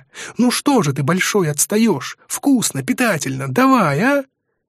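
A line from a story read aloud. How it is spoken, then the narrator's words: Squeak. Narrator (Russian): Пискнет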